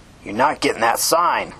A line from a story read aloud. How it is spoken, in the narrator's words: Richard spat angrily